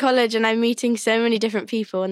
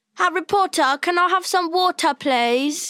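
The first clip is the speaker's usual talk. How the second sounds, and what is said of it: Exaggerated mock British accent. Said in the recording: “they all try to do my accent. And the go-to one that I've come to is”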